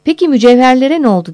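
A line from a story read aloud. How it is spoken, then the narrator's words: Shouted, forgetfully repeating. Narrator (Turkish): diye bağırdı bu soruyu birçok kez sorduğunu unutmuşçasına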